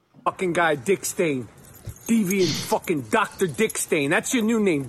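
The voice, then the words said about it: Broad Brooklyn accent. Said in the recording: “He's got like a really broad, I think it's Brooklyn accent. You probably even recognise his voice, Michael Rapaport.”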